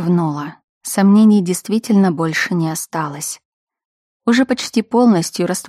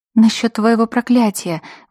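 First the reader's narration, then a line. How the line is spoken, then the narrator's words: Breathy between kisses. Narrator (Russian): выдохнула я между поцелуями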